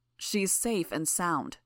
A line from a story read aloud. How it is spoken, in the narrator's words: Coil said